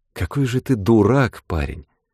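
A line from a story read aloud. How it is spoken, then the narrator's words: Sad and simple. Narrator (Russian): Грустно и просто сказала она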